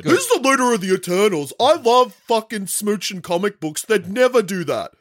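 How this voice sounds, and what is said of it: Imitates another person's voice. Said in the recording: “I'm doing a Hayden impression.”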